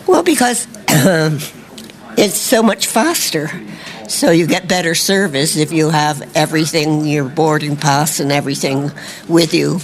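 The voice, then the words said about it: American accent, Californian. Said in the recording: “I've got to ask you your accent... Where are you from in the States?... I'm from Santa Barbara, California... fantastic accent”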